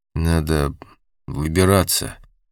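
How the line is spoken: Hesitant suggestion. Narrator (Russian): предложил Дик неуверенно

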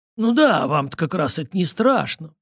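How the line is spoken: Grumbling. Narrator (Russian): проворчал Стас

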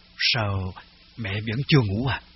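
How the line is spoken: Whisper. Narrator (Vietnamese): Tôi thì thào

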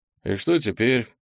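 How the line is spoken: Indifferent question. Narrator (Russian): безразличным тоном спросил Артем у своей новой компании

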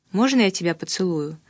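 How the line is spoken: Quiet question. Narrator (Russian): спросил тихо

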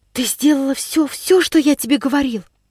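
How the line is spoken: Anxious whisper. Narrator (Russian): Тем же тревожным шепотом осведомился он

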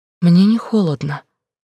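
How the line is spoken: Agitated speech. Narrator (Russian): говорит уже взволнованно

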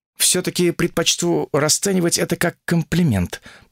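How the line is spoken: Dry, through gritted teeth. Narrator (Russian): сухо процедила Ольга

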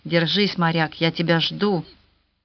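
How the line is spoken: Whispered. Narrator (Russian): Сьюзан шептала ему

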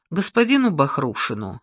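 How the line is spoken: Perfectly calm, composed. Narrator (Russian): совершенно спокойным голосом ответил Яновский, ничуть не потеряв хладнокровия

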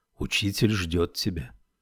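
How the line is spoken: Whisper. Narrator (Russian): Нуми шепнул

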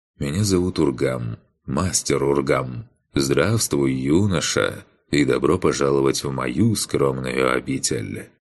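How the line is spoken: Pleasant low voice. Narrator (Russian): отрекшийся приятным низким голосом произнес

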